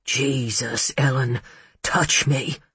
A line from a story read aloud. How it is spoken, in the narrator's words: he rasped